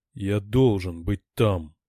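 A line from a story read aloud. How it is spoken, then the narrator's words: Deep guttural moan. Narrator (Russian): утробным голосом простонал Григ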